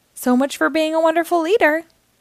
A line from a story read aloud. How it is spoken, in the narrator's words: Night Ninja called out to Owlette